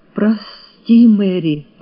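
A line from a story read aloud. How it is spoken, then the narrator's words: Breathy exhale. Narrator (Russian): выдохнул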